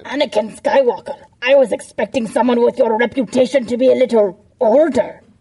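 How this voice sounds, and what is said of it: Villain character voice, Canadian-sounding. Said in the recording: “Grievous Canadian too?”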